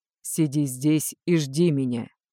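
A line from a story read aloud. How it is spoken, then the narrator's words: Cold, displeased. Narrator (Russian): недовольно поморщился и холодно произнес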